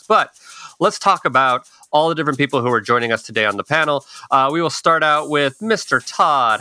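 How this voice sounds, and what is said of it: Speaking very fast. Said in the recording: “I have an energy drink because that's probably why I'm talking so fast.”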